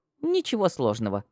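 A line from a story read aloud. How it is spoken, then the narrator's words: Snorting. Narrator (Russian): хмыкнула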